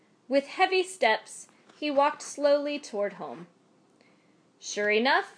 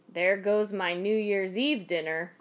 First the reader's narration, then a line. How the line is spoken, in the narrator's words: he mumbled to himself